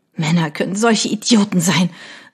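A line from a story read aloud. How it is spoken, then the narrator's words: Sobbing cry. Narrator (German): rief sie schluchzend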